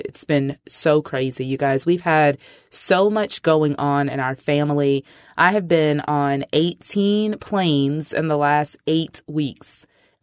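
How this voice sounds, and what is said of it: Congested, stuffy voice. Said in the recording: “I sound a little congested ... I am still battling COVID”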